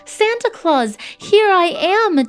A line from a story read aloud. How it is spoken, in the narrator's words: Jimmy cried out